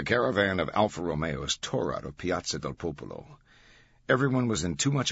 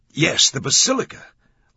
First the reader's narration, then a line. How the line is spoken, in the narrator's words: Langdon exclaimed, triumph in his voice